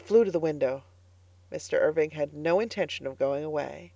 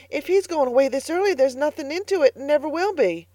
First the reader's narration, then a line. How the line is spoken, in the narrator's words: gasped Carlotta